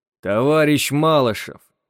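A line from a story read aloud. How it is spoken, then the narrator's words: Icy cold voice. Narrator (Russian): ледяным голосом сказал капитан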